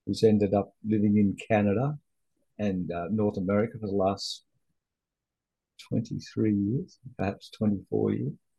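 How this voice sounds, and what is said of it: Australian accent. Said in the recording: “I'm an Aussie. I guess you can all tell by the accent.”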